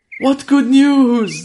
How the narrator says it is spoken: they cried together

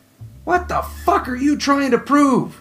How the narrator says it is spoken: Neil shouted

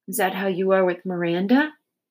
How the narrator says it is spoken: he asked

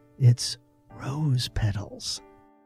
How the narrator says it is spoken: Abelia almost in a whisper, said

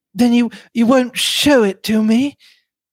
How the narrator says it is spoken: Mary Cavendish was saying, in the voice of a woman desperately controlling herself

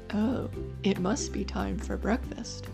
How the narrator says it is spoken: a voice said

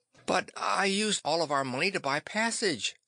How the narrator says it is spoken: Sis wailed

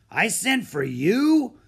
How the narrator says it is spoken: growled

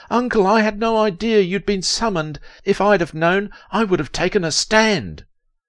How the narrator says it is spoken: shouted in utter desperation

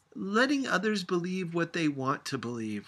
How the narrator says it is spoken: shouted back

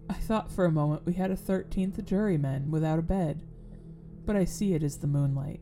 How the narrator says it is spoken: laughed, and said in a pleasant way

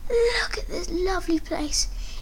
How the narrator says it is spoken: my Mum whispered to herself

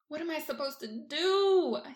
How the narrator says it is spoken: whines

